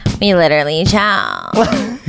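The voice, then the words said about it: Valley Girl accent. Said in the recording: “we should say it in an LA Valley Girl accent.”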